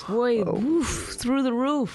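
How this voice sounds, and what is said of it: Mock white man voice. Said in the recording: “What if I did this in a white man voice?”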